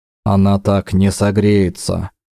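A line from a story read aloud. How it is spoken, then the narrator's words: Tired, curt. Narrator (Russian): устало бросил Дакар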